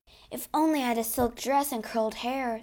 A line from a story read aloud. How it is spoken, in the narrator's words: sighed Meg